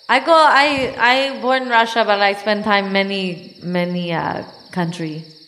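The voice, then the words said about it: Russian accent. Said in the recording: “I love your accent... A Russian accent really does it for me.”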